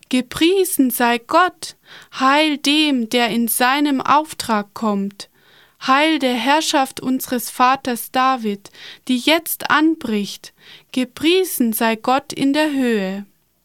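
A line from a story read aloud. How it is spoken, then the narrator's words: Loud crowd shouting. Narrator (German): Die Menschen begannen laut zu rufen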